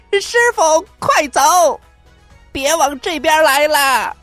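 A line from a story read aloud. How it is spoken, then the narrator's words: Shouting while flying. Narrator (Chinese): 悟空一边飞一边喊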